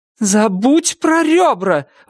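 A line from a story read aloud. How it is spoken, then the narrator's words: Righteously furious yelling. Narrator (Russian): вопила она в праведном гневе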